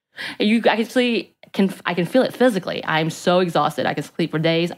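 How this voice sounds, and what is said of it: Hoarse, worn-out voice. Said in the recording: “My voice is gone, maybe because I'm always screaming.”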